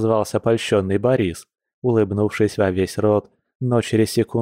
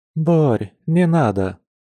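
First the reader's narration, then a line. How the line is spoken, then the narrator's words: Gloomy sigh. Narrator (Russian): хмуро вздохнула женщина, чувствуя, что не готова к таким подаркам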